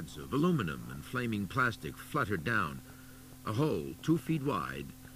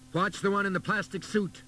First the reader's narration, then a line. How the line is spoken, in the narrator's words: Boland shouted to his spotter